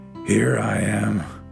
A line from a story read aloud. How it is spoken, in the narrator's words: said a growly voice